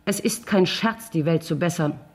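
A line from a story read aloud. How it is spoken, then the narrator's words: Plain. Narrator (German): sagt ich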